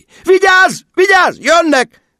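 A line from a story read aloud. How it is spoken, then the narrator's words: Shrill shriek. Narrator (Hungarian): visított Margó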